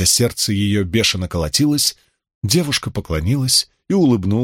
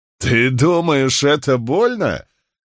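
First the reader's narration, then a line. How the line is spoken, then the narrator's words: Loud laughter. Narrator (Russian): Котис расхохотался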